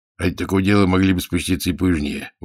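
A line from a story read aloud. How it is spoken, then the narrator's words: Grumbling father. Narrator (Russian): ворчал отец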